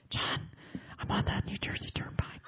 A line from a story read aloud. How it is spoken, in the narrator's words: whispering fervently